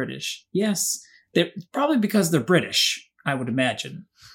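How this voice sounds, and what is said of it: Usual voice. Nothing is said of it.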